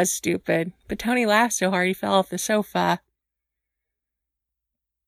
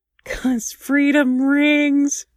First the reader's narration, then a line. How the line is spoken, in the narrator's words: Tony replied with a snort